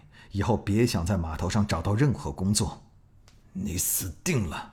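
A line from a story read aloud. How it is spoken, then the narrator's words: Vicious, menacing. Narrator (Chinese): 老大恶狠狠地说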